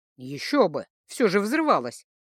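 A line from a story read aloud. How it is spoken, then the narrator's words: Snorting. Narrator (Russian): хмыкнул Элайтер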